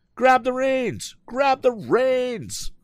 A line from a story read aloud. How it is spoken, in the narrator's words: shouted Tom